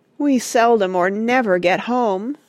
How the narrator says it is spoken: moaned the glove

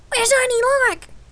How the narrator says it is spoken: They asked excitedly

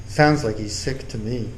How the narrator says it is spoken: In a serious tone, he said

